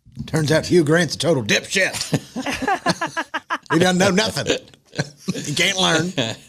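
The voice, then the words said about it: Put-on American Southern accent. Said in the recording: “In a Southern accent.”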